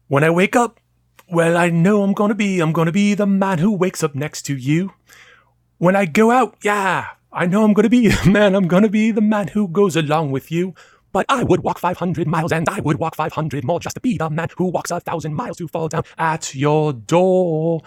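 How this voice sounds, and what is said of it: Sung with a poor put-on accent. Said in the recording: “How is my accent? ... You weren't very good at that accent”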